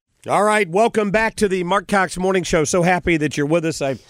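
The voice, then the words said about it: Slightly raspy voice. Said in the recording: “my voice is, while still a bit raspy, closer to normal”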